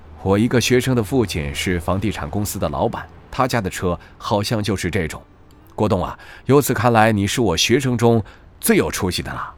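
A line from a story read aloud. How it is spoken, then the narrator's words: Admiring exclamation. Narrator (Chinese): 沈月上车后禁不住感叹道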